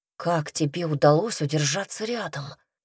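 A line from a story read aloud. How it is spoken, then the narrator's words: Quiet question. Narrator (Russian): тихонько спросил Петька подругу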